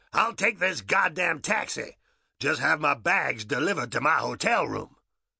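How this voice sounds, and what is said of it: Barked American accent. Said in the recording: “barks in an American accent”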